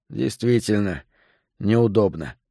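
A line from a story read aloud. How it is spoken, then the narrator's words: Sigh. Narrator (Russian): вздохнул я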